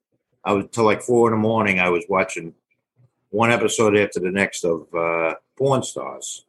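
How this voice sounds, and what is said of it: Speaks with a noticeable regional accent. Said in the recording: “it's my accent. It sounds like Porn Stars, whether I'm freezing or not ... he has much worse accent than I do”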